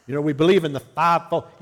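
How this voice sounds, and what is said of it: Put-on Southern American accent. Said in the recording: “Usually people do it with a southern accent”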